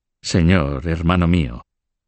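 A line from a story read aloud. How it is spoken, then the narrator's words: Calm, cold voice. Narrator (Spanish): dijo con una voz tranquila y fría que recordaba la de Felipe el Hermoso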